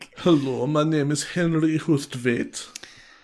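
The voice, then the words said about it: Caricatured flamboyant German accent. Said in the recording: “It is real caricature of a flamboyant German man”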